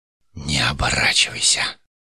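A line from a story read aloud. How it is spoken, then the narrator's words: Whispered. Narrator (Russian): прошептал Иштумегу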